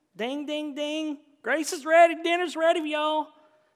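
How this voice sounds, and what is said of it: Exaggerated Southern accent. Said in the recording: “Is that too southern of an image for you? I do that in the South with a little more accent.”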